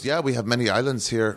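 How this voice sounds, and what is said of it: Bad put-on Indonesian accent. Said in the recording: “That's a fucking terrible accent. ... It's definitely not Southeast Asian or Indonesian.”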